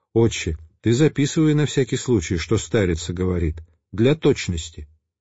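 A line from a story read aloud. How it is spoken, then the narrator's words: Whisper. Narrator (Russian): Отец Пимен шепнул мне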